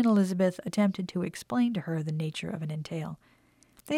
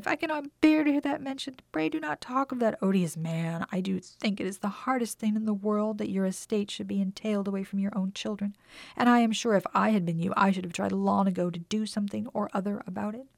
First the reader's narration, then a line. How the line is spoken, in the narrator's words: cried